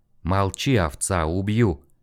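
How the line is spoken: Quiet menacing threat. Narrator (Russian): Тихо, с угрозой, бросил Дик

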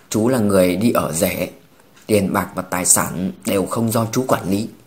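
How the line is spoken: Awkward throat-clearing. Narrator (Vietnamese): Trên mặt Trương Đông Thăng hiện ra sự sượng sùng, ... hắng giọng

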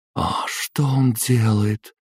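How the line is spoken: Weak breathy voice. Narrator (Russian): Слабо выдохнула Адетта

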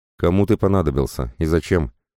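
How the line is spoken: Tired voice. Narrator (Russian): устало проговорил я

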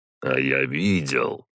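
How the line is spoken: Quiet. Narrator (Russian): тихо сказал Ярослав

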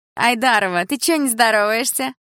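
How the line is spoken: Mocking, chewing gum. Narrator (Russian): насмешливо спросила Тина, жуя жвачку

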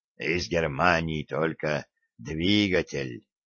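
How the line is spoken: Quiet. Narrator (Russian): тихо сказал инженер

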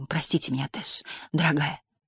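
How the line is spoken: Whisper. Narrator (Russian): прошептал

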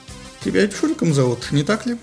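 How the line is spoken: Slightly playful tone. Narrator (Russian): несколько игривым тоном продолжил

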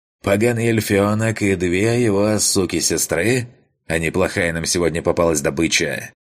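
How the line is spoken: Loud yelling. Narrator (Russian): громко проорал

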